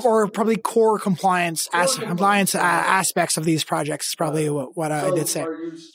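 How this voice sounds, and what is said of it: French accent. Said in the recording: “probably the French accent that's coming through”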